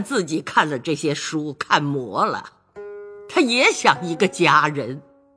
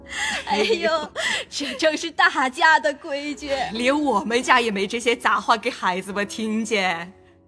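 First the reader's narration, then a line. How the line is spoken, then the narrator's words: Laughing together. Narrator (Chinese): 李薛二人都笑说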